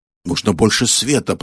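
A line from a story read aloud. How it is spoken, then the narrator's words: Grumbled. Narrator (Russian): проворчал детектив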